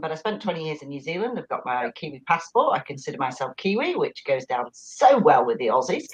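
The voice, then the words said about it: Northern English accent, not Australian. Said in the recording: “as you can tell by the accent, it isn't quite Aussie. I'm originally from the north of England”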